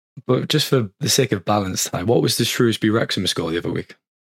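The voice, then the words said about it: Croaky voice. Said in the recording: “why your voice is a bit croaky”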